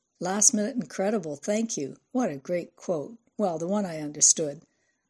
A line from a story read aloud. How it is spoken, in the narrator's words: Pavla laughed